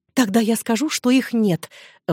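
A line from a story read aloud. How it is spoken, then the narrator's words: Excited exclamation. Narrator (Russian): взволнованно воскликнула Сюзанна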